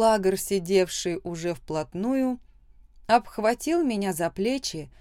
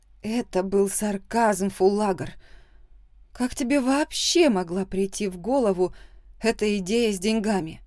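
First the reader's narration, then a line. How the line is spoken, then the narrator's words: Angry quiet hiss. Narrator (Russian): Зло прошипела я, не желая привлекать внимание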